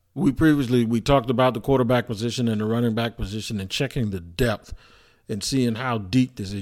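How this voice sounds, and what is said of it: Hoarse, partly lost voice. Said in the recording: “I hope my voice isn't sounding too bad because it's gone a little bit ... did a little bit of yelling and screaming”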